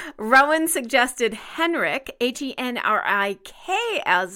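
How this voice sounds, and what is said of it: Usual voice. Nothing is said of it.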